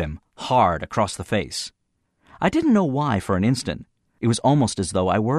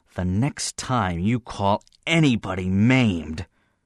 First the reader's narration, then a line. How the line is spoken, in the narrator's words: I bit off the words harshly so he would understand all of them